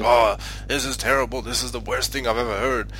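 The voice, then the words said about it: Put-on American accent. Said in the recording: “an American accent”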